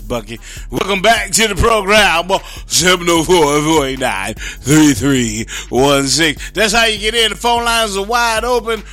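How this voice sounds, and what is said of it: Radio DJ announcer voice. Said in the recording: “I'm going to my DJ voice”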